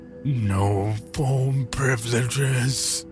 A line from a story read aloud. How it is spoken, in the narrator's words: he groaned, sounding as if the words were bubbling through a mouthful of something